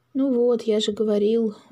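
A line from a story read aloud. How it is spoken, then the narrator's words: Sigh. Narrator (Russian): вздохнул Макс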